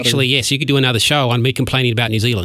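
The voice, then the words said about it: Mild Australian accent. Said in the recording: “you got a little bit of an accent ... I'm Australian.”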